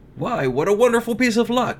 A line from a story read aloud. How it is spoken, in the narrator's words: he cried